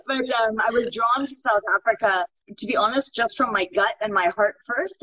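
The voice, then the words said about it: Californian American accent. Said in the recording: “I don't have a South African accent. I did grow up in California ... You have that California accent.”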